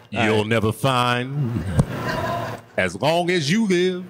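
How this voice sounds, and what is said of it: Sings imitating a singer's voice. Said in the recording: “my Teddy Pendergrass voice ... Do I need to sing?”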